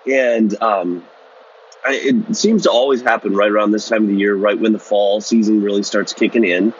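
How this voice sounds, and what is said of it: Slightly off, sick-sounding voice. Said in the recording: “my voice sounds a little bit off. ... I've got a bit of a cold”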